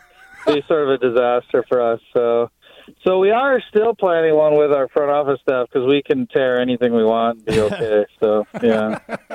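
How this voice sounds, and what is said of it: Slight Wisconsin accent. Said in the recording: “I slip into my Wisconsin accent a little bit”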